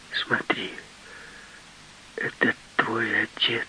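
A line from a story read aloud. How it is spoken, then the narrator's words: Whispered. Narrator (Russian): Она шепнула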